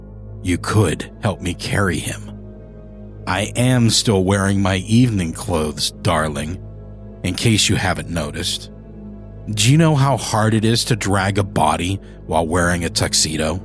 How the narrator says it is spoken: He clipped the ends of his words, his voice gravelly in his irritation

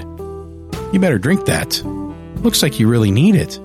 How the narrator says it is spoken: chuckled again, and said

